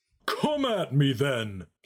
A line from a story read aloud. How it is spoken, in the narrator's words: Santocules roared with a hearty